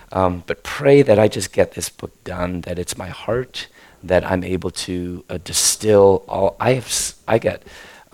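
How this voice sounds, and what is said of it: Hoarse, failing voice. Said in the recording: “I'm losing my voice now”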